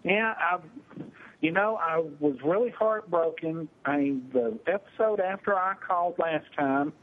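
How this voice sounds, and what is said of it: Texas accent. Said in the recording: “is a true Texas accent”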